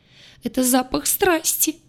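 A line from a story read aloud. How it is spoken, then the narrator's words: Sobbing. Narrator (Russian): разрыдалась лаборантка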